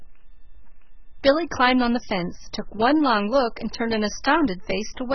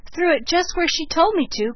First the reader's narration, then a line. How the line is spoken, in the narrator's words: cried Billy